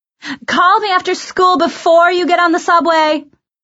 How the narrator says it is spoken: Mom yelled at me from the window

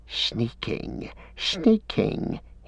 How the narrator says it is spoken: he hissed

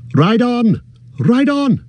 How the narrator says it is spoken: cried Glorfindel

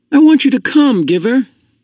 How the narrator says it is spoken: Jonas pleaded

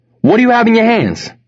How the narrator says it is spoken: another gunman yelled

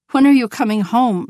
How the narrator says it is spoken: she begged her mother

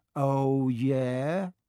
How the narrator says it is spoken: said Malfoy, trying to sneer but looking worried

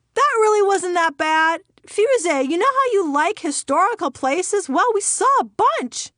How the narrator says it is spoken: father shouted from 4 rows ahead

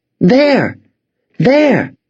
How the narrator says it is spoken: Emma shouted

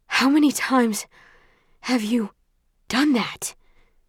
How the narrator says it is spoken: asks between breaths

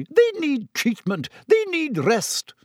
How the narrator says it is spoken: sputtered Madame Pomfrey

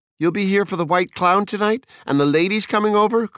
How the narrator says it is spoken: cried Mildred

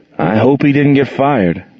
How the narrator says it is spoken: groaned Gerald

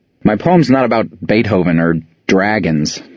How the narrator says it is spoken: I manage a sneer at Elsa

